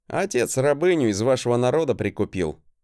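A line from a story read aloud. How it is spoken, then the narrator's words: Unabashed smirking grunt. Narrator (Russian): хмыкнул я, не особо комплексуя от своего происхождения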